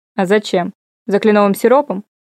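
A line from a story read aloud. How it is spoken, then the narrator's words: Scoffing snort. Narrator (Russian): фыркнул Коул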